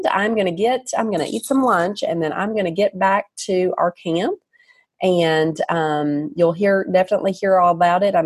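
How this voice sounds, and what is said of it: Southern US accent. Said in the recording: “I love my accent. I own it... I'm Southern and I'm proud.”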